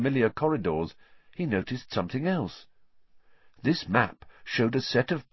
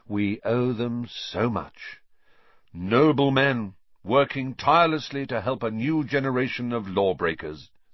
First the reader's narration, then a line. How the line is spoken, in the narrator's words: said Fred solemnly